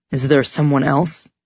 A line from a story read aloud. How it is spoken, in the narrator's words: He asked roughly